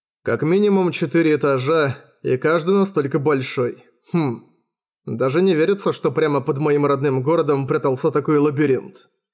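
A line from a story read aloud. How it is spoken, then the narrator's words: Plain. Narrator (Russian): сказал Уильям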